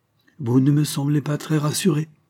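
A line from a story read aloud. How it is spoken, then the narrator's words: Casual tone. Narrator (French): nous dit Rouvière d'un ton dégagé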